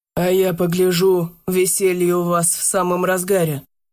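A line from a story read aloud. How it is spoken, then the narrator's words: Grim proclamation. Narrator (Russian): мрачно провозгласил Кулешов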